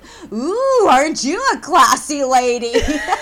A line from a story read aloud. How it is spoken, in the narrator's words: he yells out the window at this woman